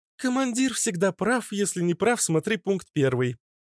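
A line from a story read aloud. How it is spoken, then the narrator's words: Crisp, clipped. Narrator (Russian): отчеканила она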